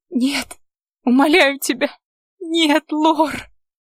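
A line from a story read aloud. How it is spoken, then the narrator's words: Sobbing, desperate pleading. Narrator (Russian): твердила сквозь всхлипы и рыдания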